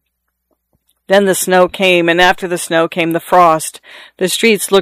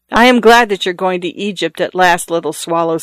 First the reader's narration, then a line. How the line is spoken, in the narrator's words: said the prince